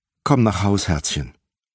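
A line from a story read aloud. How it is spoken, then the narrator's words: Plain. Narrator (German): sagte sie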